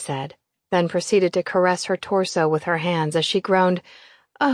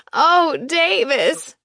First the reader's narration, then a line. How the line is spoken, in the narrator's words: I laughed